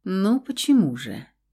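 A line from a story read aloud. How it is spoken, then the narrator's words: Soft, smiling. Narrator (Russian): Мягко улыбнулся блондин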